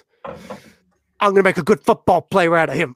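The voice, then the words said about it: Poorly done imitated accent. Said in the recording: “That was a terrible accent.”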